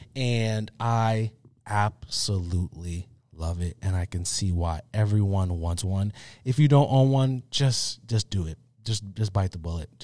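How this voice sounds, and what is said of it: Slightly off voice from a cold. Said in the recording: “my voice sounds a little weird ... I am feeling a little under weather ... been coughing, sneezing”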